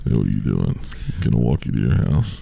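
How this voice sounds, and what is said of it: Creepy deep voice. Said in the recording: “You got to have a real deep voice.”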